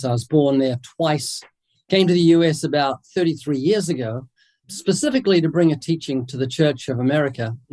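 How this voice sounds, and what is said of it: New Zealand accent. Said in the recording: “I'm originally from New Zealand. That's what the accent is.”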